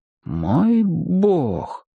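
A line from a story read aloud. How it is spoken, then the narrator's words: Exclaiming. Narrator (Russian): воскликнул гость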